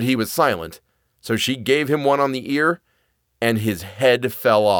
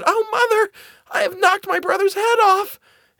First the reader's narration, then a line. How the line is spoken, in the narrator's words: Marlene was terrified and began crying and screaming and ran to her mother and said